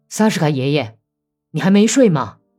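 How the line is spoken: Calling out. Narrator (Chinese): 格里高利叫了一声

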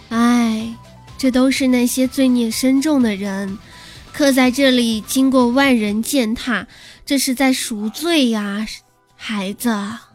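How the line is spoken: Old woman, long sigh. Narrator (Chinese): 奶奶长叹一声

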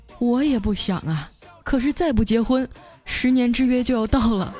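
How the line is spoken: Sighing. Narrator (Chinese): 他叹了口气啊，说

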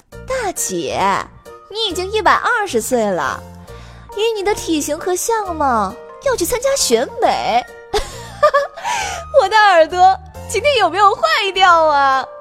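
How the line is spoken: Leisurely, drawn-out. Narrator (Chinese): 贝拉的声音悠悠传来

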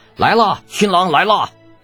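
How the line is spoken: Happy shout. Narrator (Chinese): 程楚墨高兴的喊着

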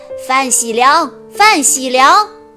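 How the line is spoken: Loud calling from doorway. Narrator (Chinese): 门口传来高声吆喝的声音

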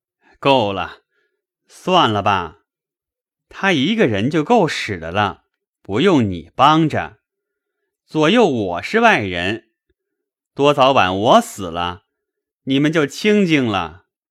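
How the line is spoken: Laughing. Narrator (Chinese): 笑道

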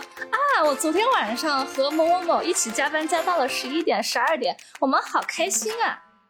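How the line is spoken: Cheerful, smiling. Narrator (Chinese): 他就满脸笑容的在组会的时候说

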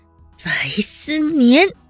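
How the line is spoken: Through gritted teeth, furious. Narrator (Chinese): 温之夏咬牙切齿道

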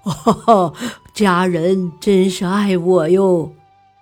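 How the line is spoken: Hearty laughter. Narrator (Chinese): 要饭花子哈哈大笑说

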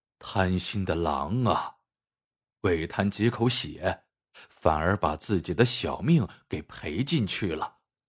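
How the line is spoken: Dazed muttering to himself. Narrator (Chinese): 侄子这时却两眼发直，看着远处垂死的狼发呆，口中喃喃自语道

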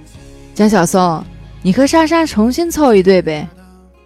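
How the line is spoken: Joking. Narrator (Chinese): 有人开玩笑说

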